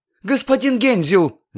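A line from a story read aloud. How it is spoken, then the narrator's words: Energetic yell. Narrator (Russian): завопила она с невероятной энергией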